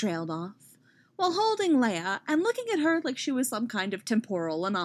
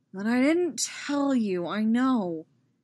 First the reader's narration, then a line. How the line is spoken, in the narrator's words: Anakin said wearily